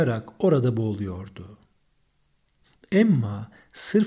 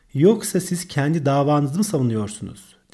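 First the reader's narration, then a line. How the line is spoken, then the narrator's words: Plain. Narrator (Turkish): dedi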